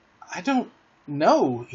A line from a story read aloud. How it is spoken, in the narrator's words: he replied uneasily